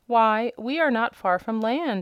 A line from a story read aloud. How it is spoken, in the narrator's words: exclaimed the hen